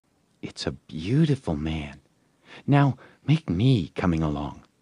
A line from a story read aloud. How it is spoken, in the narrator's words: She was satisfied with the monster and whispered